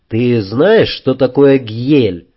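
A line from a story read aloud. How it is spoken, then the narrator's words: Question after a grunt. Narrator (Russian): Йенс ... хмыкнул ... спросил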